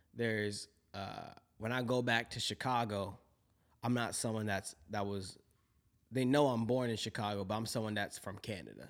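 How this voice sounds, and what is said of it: American Chicago accent. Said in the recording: “this American accent that people be talking about, I still got that”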